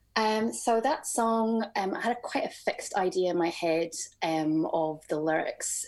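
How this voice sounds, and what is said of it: Scottish accent. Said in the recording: “where's your accent from? ... I'm from Scotland ... I grew up in the Shetland Islands”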